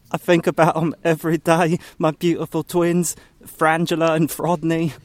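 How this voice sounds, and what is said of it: Put-on accent. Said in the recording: “has an accent ... you still got that accent, don't ya? ... It's very distracting.”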